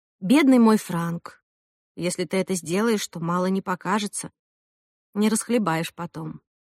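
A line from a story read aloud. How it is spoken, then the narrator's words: Slightly sad but tender. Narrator (Russian): я просто сказала, немного грустно, но ласково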